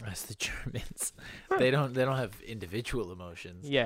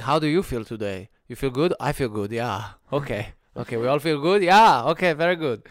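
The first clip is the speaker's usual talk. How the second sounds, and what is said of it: Bad put-on German accent. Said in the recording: “That's the worst German accent ever ... yeah, it was horrible.”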